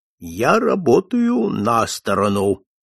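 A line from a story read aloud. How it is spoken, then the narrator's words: Stern answer. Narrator (Russian): он строго отвечал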